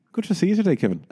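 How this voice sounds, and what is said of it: Irish Dublin accent. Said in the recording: “That was your Irish accent, right? ... your Dublin accent”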